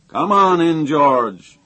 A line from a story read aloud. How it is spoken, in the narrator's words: he thundered